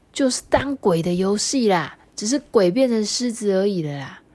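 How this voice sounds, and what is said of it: Quiet, whispered voice. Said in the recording (Chinese): “凑近呼噜的耳朵，小声的跟他说”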